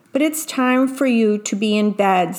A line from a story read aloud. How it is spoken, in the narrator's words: said Mama